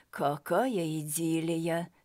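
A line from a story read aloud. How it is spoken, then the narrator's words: Calm remark. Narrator (Russian): спокойно заметил Мурашенков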